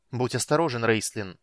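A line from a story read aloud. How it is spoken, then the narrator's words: Sharp. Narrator (Russian): резко бросила Китиара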